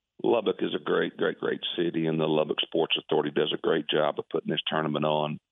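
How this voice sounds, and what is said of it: Slightly hoarse voice. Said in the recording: “excuse my voice. It's a little hoarse. I think this West Texas wind's already got to me a little bit.”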